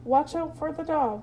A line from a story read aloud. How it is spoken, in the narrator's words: cried the sheep